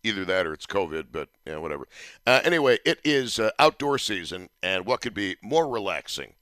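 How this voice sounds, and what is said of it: Sick, cold-affected voice. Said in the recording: “sorry for my voice. It's a stupid summer cold that I apparently picked up”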